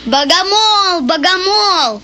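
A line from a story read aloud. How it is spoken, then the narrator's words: Sudden full-force shout. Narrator (Russian): Кирюшка, вдруг, что ни есть силы, закричал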